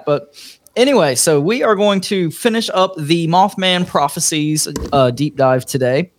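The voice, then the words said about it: Voice rough from a cold. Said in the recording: “I've been a little under the weather this week, been coughing and sneezing for a few days now, so my voice isn't quite up to crack.”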